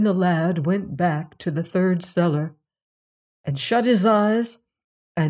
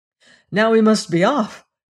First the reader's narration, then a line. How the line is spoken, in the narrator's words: cried the horse